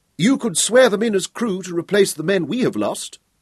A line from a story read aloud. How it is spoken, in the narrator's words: Howell pleaded